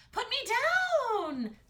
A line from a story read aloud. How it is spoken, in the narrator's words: Astrid screamed